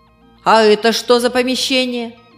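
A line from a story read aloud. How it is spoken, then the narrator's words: Stern questioning. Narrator (Russian): также строго продолжала она спрашивать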